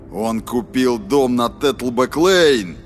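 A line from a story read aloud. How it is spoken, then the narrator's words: Roaring. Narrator (Russian): проревел стрелок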